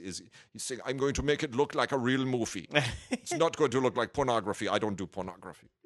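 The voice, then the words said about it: Imitates another person's voice, poorly. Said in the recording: “that's a terrible impression, by the way.”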